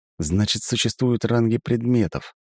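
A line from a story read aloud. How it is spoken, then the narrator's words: Wry snort. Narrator (Russian): хмыкнул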